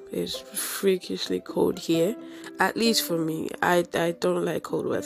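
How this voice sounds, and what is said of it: Low, congested nasal voice. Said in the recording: “my voice is a bit, you know, low ... my nose is all clogged up”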